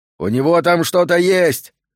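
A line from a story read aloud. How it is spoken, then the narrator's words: Shouted. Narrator (Russian): крикнул охранник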